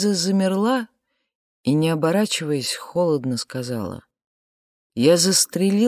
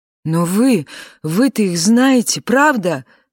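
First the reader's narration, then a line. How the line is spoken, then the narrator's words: Shouting. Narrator (Russian): закричал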